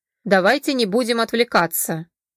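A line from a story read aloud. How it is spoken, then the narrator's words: Stern. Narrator (Russian): Мстислав строго произнес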